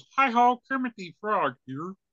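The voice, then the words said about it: Kermit the Frog impression. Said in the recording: “Kermit goes ... do the voice”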